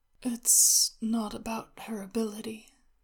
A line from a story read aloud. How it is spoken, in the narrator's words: Shenwei said, drowsily